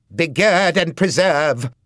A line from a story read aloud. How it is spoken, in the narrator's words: shouted Marcia